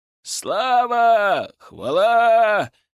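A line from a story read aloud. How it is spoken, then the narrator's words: Crowd shouting. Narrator (Russian): кричали стрельцы, да и все те обыватели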